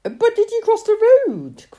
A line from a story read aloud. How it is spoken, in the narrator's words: cried his sisters